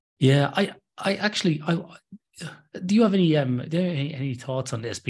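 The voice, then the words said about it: Irish accent. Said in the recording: “as you can tell from the ah. accent... I'm from uh, the middle of Ireland originally... kept the I'm, uh, accent”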